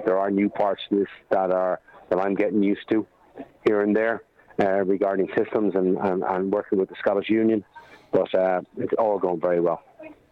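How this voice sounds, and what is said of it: Irish accent. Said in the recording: “you may have guessed from the accent that he was formerly the women's coach over in Ireland”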